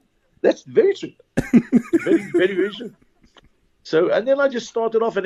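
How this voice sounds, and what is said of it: Usual voice. Nothing is said of it.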